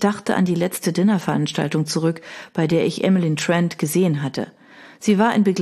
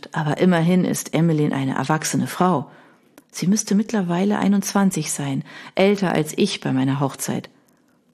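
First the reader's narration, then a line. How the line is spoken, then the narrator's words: Answered gently. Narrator (German): antwortete ich sanft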